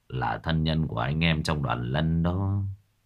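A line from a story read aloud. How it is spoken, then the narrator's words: Sad sigh. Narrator (Vietnamese): Ông Gia Lâm thở dài buồn rầu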